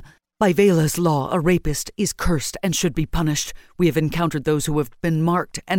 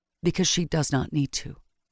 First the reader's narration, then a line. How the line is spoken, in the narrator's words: Yvonne said softly